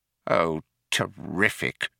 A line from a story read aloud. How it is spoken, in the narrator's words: muttered Fauke, wiping away a tiny tear